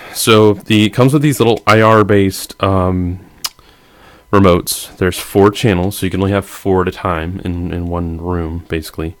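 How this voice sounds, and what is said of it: Congested voice. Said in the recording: “excuse my voice. I got some congestion. Still all recovering from holiday Christmas sicknesses.”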